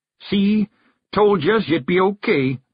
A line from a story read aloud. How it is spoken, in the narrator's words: Daft Woolly called out